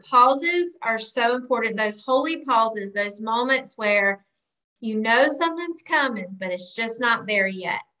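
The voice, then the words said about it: Southern American accent. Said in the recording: “you've brought the Southern accent”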